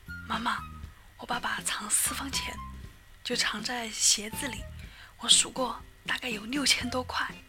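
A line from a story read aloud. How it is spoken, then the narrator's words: Whispered. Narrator (Chinese): 小明小声说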